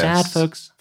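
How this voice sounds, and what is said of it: Imitates another person's voice. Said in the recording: “It's very trumpy ... try to do a Trump impression”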